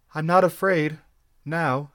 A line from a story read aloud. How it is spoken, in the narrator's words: she sighed